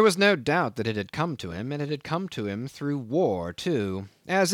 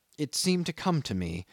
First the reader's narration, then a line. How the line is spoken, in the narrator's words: he murmured